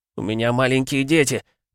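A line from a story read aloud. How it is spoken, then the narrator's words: Pleading officer. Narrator (Russian): взмолился участковый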